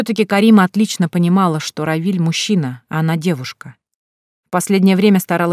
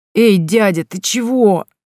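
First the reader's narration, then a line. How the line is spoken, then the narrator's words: Groaning. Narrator (Russian): простонал Горшков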